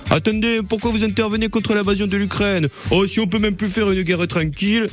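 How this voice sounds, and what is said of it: Put-on Marseille French accent. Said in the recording (French): “prenez l'accent marseillais. Tous les diplomates devraient prendre l'accent marseillais.”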